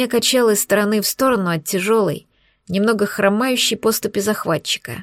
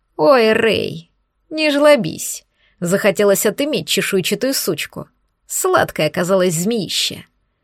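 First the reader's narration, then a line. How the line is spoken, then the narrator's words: Laughing, distinctive voice. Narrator (Russian): Рассмеялся подонок, чей тембр я узнала бы из тысяч других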